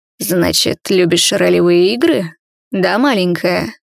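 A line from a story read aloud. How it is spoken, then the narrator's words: Purr in the ear. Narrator (Russian): Мурлыкнули мне на ухо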